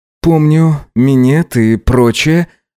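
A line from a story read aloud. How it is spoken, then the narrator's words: Breathy moan of pleasure. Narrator (Russian): выдохнул он, застонав от приятных ощущений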